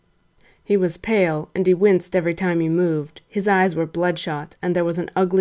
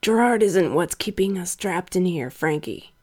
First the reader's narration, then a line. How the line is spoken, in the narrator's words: Brian croaked